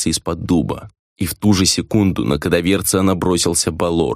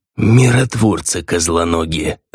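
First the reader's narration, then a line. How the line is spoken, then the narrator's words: Spiteful but quiet raven. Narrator (Russian): Злобно, но тихо отозвался ворон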